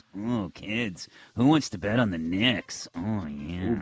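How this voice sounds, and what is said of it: Creepy voice. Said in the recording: “Ken Kniff voice is the only thing that can rival ... creepy voice.”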